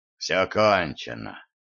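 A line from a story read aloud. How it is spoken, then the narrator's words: Hollow muffled voice. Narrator (Russian): глухо произнес Дайер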